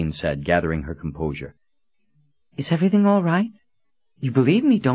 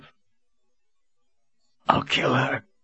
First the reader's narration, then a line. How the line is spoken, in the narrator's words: Cullen rasped in a hoarse voice